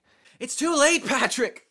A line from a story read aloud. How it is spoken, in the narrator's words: He screamed, tears running down his face